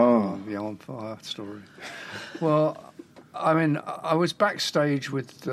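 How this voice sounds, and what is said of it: Usual voice. Nothing is said of it.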